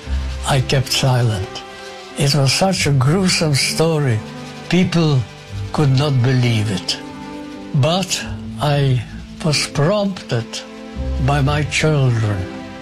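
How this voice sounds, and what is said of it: Speaks with a foreign accent. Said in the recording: “why do you speak with a funny accent?”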